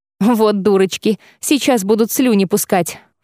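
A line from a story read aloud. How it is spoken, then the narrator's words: Scornful snort. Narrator (Russian): фыркнула Цириса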